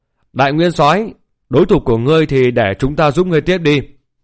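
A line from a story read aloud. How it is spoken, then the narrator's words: Laughing, shouting loudly. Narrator (Vietnamese): Thạch Hạo cười lớn hô to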